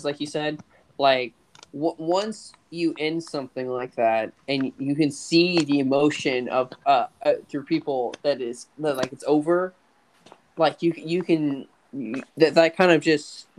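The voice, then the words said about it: Stuttering, halting speech. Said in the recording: “I know I'm stuttering”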